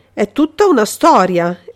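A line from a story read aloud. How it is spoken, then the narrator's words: Exclaiming. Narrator (Italian): esclamò Altieri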